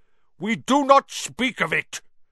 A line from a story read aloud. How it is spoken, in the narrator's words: said Aragog fiercely